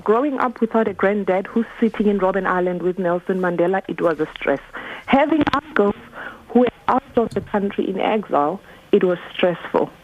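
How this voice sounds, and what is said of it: South African accent. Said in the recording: “I'm South African ... I picked that up from the accent.”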